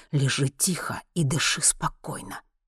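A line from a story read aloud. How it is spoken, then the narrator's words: Hissed. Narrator (Russian): прошипел Генри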